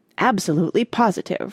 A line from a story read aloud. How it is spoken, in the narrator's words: replied Mona